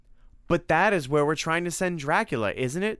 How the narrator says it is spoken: said Tim excitedly

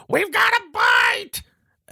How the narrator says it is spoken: one of the doctors sees Marlena and just screams

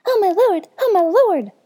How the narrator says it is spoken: exclaimed

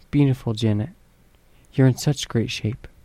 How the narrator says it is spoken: says in a silky voice

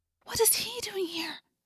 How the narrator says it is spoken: Cassie asked in a low, frightened whisper

